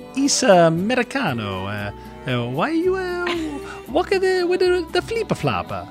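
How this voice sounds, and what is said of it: Decent put-on Italian accent. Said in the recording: “let's hear the Italian accent ... Actually, that's not bad.”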